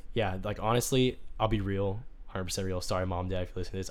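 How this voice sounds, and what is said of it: Hoarse, mostly lost voice. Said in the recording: “you guys could probably tell. My voice is dead... I did lose my voice.”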